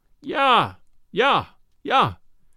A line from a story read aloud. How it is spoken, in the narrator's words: the mate would mock us and yell